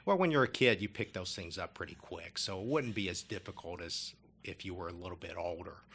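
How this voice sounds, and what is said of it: Kentucky accent. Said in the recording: “I picked up not only a good English accent, but a good Kentucky accent”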